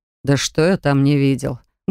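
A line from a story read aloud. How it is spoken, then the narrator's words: Grumbling mutter. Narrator (Russian): буркнул он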